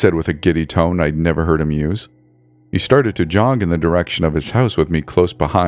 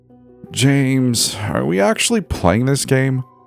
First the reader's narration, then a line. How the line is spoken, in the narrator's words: Bree whined